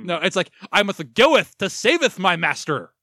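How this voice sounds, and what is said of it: Exaggerated mock Shakespearean accent. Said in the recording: “speaks with a terrible Shakespearean accent that would make Thor writers feel ashamed”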